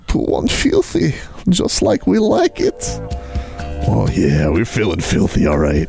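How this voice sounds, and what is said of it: Put-on Finnish accent. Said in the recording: “2-1 filthy, but in a Finnish accent, dude.”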